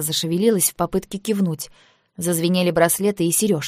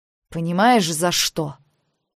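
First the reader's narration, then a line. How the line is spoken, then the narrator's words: Drained, weary. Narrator (Russian): Я говорила устало, Спонтанное подключение к источнику всегда высасывает прорву силы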